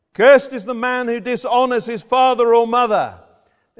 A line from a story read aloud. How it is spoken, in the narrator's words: They shout to one another